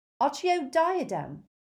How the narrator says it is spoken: cried Hermione in desperation

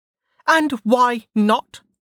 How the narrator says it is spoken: Velika snapped

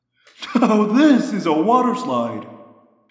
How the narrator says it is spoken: Rachel said, laughing a bit hysterically

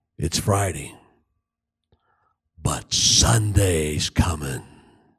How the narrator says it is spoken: the voice of God whispered

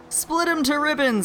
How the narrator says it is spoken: the captain yelled in my ear above the noise of the wind

